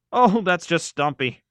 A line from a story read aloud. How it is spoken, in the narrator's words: Frank said, chuckling